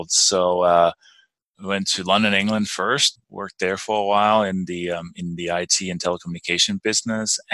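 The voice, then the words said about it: Danish accent. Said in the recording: “That's not quite a Colorado accent I'm detecting. ... hence the you know my name and, and accent. I'm actually I was born and raised in Denmark”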